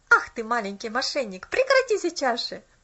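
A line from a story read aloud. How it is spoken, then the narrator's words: Laughing. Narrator (Russian): рассмеялся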